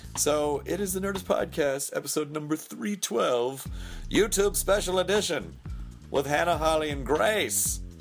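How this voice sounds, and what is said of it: Strained, failing voice. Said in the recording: “I'm losing my voice. Maybe I'll just blow it out completely now.”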